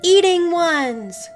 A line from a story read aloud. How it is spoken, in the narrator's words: Noah and Finn shouted together